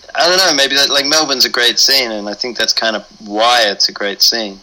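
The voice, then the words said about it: Australian accent. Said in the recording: “You got kind of an Australian accent, it sounds like.”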